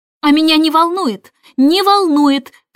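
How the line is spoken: Shouting. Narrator (Russian): кричала Джейн

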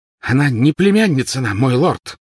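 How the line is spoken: Exclaiming over loud noise. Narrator (Russian): воскликнула Белатриса, перекрикивая веселый гам

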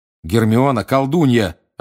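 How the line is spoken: Snapping. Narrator (Russian): огрызнулся Гарри

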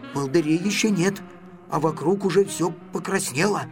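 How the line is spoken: Whispered. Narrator (Russian): шепотом сказал Гриша

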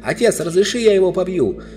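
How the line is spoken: Shouting. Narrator (Russian): Корин крикнул

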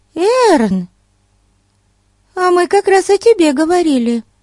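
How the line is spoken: Exclaiming. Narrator (Russian): воскликнула Бетси

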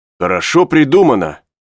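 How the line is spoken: Exclaiming. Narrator (Russian): воскликнул Пенкроф

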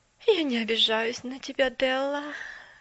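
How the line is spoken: Sighing. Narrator (Russian): вздохнула мисс Керри

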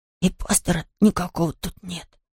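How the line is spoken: Tense whisper. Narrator (Russian): прошептал Том с напряжением

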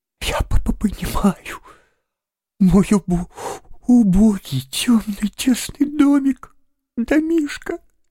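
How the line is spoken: Forced out through sobs. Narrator (Russian): наконец выдавил он из себя сквозь рыдание

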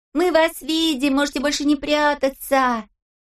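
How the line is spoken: Shouting in chorus. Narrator (Russian): мы хором закричали

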